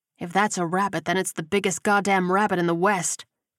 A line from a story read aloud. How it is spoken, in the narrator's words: Whitaker muttered